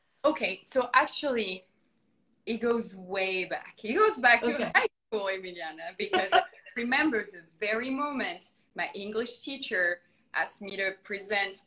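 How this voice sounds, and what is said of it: Non-native accent in English. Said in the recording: “your accent, which I personally think it's beautiful ... work on your accent”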